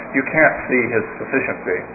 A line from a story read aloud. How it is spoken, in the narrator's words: mumbled